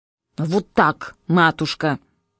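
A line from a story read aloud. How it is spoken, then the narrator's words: Muttered reply. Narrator (Russian): буркнула в ответ дочка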